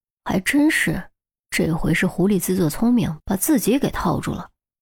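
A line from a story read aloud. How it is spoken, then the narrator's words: Whispered. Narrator (Chinese): 郑月……悄声说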